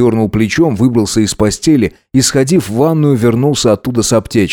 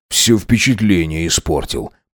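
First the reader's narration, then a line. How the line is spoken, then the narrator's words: Grumbling. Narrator (Russian): проворчал Максимилиан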